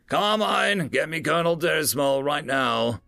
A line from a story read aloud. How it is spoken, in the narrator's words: he yelled out